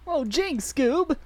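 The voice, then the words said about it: Shaggy impression. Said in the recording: “do your Shaggy impression ... Shaggy.”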